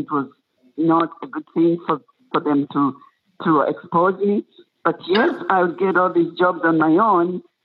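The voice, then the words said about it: Foreign accent. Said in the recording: “I'm foreign born and I've got an accent”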